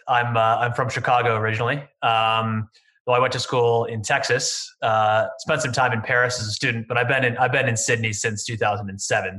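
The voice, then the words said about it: Midwestern American accent. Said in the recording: “my rather grating Midwestern American accent”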